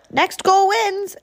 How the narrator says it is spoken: Mop yelled

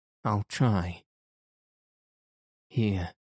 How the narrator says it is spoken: he sighed

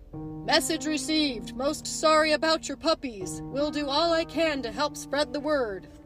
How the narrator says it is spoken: howled a Great Dane

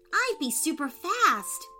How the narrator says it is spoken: shouted Angelica

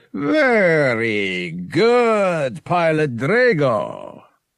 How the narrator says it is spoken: Terowenza boomed

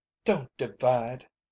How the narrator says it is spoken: Eliza Travers had pleaded

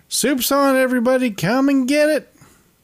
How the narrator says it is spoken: Alice yells out from the other room

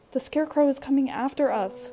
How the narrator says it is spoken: cried Libby Lou

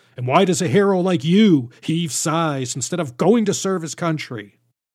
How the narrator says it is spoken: a loud voice from behind, sternly saying

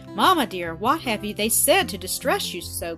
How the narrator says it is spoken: cried Doris

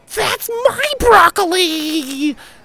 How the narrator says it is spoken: screamed a furious 5-year-old across the room

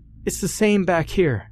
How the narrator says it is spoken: Jackie called out

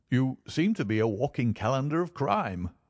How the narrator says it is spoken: said Stamford with a laugh

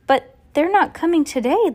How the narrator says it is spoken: the woman cried

